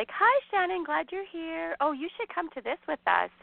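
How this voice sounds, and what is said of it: Mocking fake-nice voice. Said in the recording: “I'm doing that voice on purpose because I'm annoyed.”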